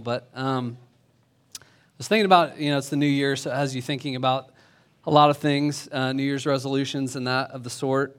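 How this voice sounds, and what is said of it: Weak, strained voice. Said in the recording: “if my voice sounds weak, it's because I've been screaming at my sons to slow down on snow skis”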